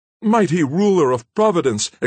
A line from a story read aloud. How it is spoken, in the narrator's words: exclaimed Hayward, clasping his hands together in agony